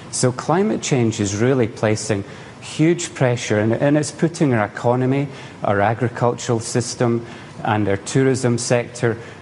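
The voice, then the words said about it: Scottish accent. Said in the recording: “just listening to my accent, you know, I come from Scotland”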